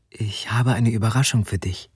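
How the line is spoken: Whisper. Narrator (German): flüsterte sie

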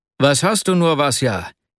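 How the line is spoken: Breathless exclamation. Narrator (German): rief er schließlich aus, als er ihn mit großer Mühe einholte

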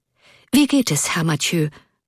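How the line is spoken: Breathing hard, hurried question. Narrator (German): fragte er Erik hastig atmend

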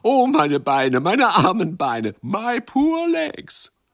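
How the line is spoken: Laughing, calling out. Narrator (German): Sie lachten und riefen

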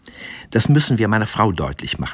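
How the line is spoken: Plain. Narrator (German): sagte Eduard

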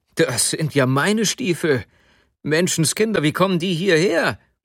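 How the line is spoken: Call. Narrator (German): rief er

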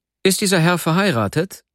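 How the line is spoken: Fairly loud question. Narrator (German): fragte ich ziemlich laut

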